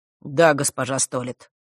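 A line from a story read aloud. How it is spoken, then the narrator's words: Polite but cold. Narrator (Russian): учтиво холодно ответил Рок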